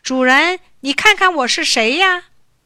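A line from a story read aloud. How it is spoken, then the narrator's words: Shouting from below. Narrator (Chinese): 伊尔在山下大叫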